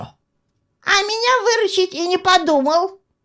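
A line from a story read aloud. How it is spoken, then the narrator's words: Squeaked aside. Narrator (Russian): пискнул тонкий в сторону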